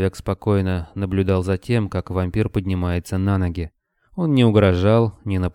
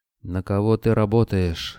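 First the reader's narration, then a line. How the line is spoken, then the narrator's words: Hoarse question. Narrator (Russian): хрипло спросил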